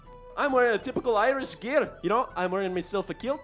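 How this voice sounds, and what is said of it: Put-on Irish accent, very good. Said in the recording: “a little Irish brogue. In my voice ... that is a very good Irish accent ... It's stellar”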